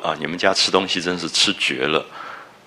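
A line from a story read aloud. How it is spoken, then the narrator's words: Sighing. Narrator (Chinese): 薛姨妈才叹了一口气说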